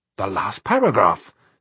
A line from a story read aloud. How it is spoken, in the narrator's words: said Artus excitedly